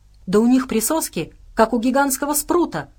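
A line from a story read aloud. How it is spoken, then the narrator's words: Exclaiming. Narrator (Russian): воскликнул Джеффри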